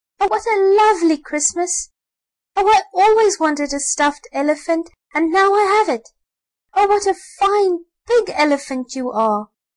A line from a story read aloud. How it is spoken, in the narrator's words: the little boy shouted and clapped his hands for joy and cried